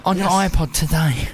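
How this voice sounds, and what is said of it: Radio presenter voice. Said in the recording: “I'm going to do my radio voice.”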